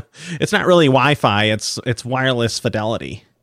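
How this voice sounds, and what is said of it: Annoying nerdy put-on voice. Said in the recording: “my annoying nerd voice”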